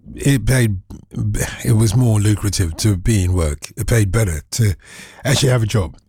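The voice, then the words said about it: Slightly hoarse, croaky voice. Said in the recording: “I've got a little frog in my throat”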